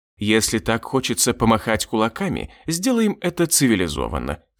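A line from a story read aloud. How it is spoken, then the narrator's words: Calm demon. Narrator (Russian): спокойно заявил демон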